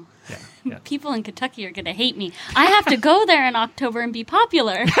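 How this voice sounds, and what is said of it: Usual voice. Nothing is said of it.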